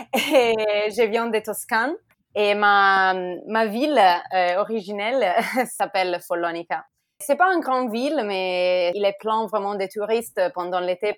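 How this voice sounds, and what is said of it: Italian accent speaking French. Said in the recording (French): “je suis italienne, comme vous pouvez entendre par mon accent.”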